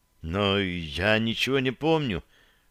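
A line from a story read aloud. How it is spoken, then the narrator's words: Whispered confession. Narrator (Russian): шепотом признался он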